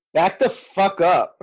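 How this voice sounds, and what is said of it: Put-on New York accent. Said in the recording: “the old New York accent”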